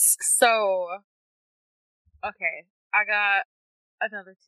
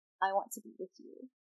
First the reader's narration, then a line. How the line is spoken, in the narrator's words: she said, her voice no louder than a whisper